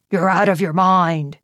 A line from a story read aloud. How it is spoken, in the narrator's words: he growled